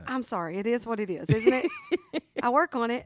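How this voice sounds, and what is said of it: Southern American accent. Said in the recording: “I'm from the South. ... that accent. ... Southern.”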